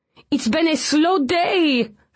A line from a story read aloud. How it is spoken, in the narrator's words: Francois whined